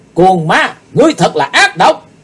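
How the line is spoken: Loud shout. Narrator (Vietnamese): Chí Tôn thét lớn

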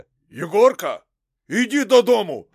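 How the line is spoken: Shouted. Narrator (Russian): прокричал Никифор

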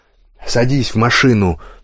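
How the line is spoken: Angry bark. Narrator (Russian): рявкнул мне отец

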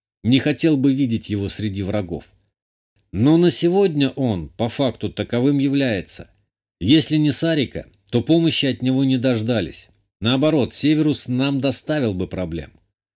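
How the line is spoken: Calm. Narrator (Russian): спокойно ответил я

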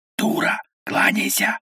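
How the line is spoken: Hurried whisper. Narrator (Russian): зашептал торопливо

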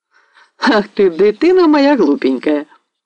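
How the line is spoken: Cheerful exclamation. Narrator (Russian): воскликнула весело Арыся

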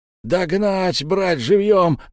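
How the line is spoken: Defeated foe yelling from behind. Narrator (Russian): заорал позади поверженный мною противник

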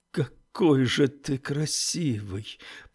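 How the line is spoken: Flirtatious mumble. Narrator (Russian): пробормотал Оуэн тем же тоном, каким разговаривал с хорошенькими мальчиками

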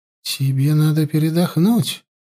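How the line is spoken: Quiet. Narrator (Russian): негромко произнесла она

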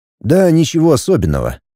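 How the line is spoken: Sighing. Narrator (Russian): Инит вздохнул

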